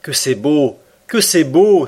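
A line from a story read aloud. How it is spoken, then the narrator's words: Delighted exclamation. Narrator (French): s'écria Conseil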